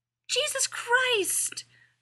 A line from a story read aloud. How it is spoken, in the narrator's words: Rodney yelled